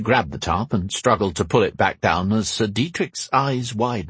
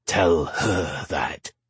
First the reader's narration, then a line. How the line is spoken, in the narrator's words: he muttered